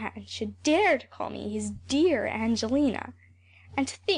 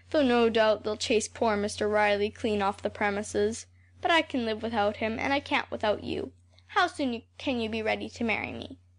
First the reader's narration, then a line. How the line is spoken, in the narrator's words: he sighed